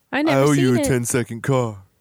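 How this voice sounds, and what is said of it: Paul Walker impression, sounding like Vin. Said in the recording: “your Paul Walker impression ... That sounded like Vin.”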